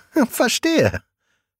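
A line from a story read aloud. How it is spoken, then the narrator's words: Giggling. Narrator (German): Svenja kichert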